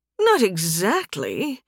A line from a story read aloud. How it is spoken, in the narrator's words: Kadria hedged, her tone uneasy